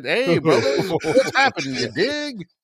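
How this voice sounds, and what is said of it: Jive-talking put-on voice. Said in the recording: “he talks with a jive accent.”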